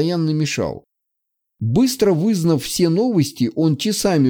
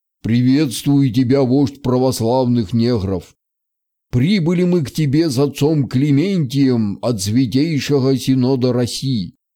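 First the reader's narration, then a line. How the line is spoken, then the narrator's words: Booming bass voice. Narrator (Russian): Прогудел он своим басом, никак не вязавшимся с его болезненной худобой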